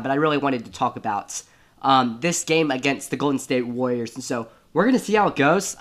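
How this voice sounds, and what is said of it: Rough, bad voice from illness. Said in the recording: “my voice is very, very bad, and I'm very, very sick at the moment ... my voice is still bad ... the rough voice throughout the entire thing”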